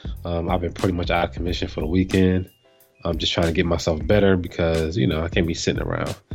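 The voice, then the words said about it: Congested voice from a cold. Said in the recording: “this week I have a cold.”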